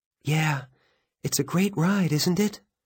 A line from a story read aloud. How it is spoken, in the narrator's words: She says wistfully